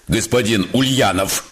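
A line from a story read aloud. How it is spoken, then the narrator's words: Sarcastic question. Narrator (Russian): спросил язвительно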